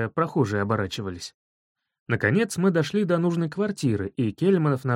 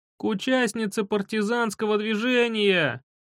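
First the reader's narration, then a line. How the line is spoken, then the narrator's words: Unpleasant yelling. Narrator (Russian): орал он противно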